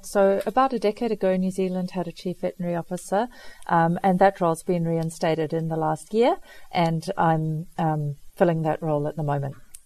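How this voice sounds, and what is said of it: Slight South African accent. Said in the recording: “there's a little bit of a South African accent coming through”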